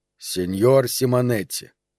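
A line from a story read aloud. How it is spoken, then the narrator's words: Deliberately calm voice. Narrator (Russian): начал подчеркнуто спокойным голосом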